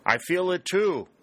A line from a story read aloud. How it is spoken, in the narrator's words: Warner shouted back